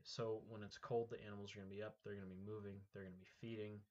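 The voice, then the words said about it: Congested, stuffed-up sick voice. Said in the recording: “I believe I am a little sick ... I've been kind of stuffed up and that kind of stuff for the last few days, so I apologize for my voice and how I sound”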